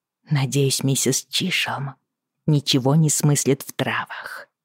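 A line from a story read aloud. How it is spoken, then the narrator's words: Whisper. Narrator (Russian): шепотом поделилась с ним Бриана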